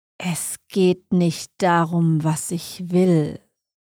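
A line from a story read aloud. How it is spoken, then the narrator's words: Slow, venomously sweet. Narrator (German): sagte er langsam, jedes Wort tropfte wie giftiger Honig von seinen Lippen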